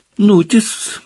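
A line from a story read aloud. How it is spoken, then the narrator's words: Cheerful. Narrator (Russian): бодро продолжал Слизнард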